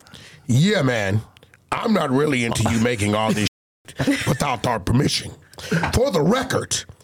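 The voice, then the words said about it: Put-on stereotypical white guy voice. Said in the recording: “In my white boy voice.”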